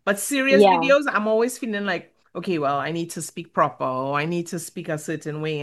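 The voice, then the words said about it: Sing-song Caribbean accent. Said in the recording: “my Caribbean accent that comes out ... I like your accent ... cute Caribbean accent ... It's like a sing-song type of accent”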